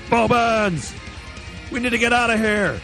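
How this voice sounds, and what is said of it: Yelling. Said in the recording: “I imagine I'm yelling because it's like a war zone.”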